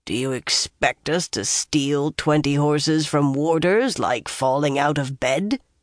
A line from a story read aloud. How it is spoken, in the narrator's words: Uno growled